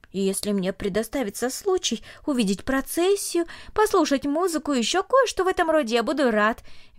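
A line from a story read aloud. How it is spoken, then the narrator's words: Cheerful. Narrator (Russian): весело сказал он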